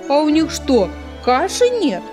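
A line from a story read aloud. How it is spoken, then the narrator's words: Hare shouting out. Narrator (Russian): выкрикнул заяц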